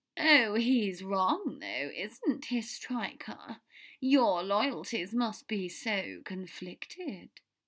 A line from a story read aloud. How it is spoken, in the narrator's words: Draco drawled